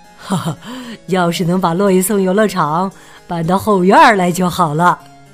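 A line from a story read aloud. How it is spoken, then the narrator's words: Joking father. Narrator (Chinese): 爸爸开玩笑的说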